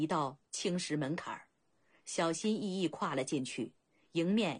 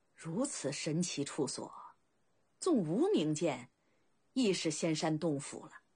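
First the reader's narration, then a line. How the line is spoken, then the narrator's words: Sincere admiration. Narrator (Chinese): 甘茂由衷赞叹道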